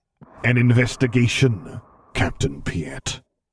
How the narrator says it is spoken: the vocoder rumbled darkly

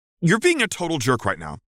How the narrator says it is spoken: he snapped at her

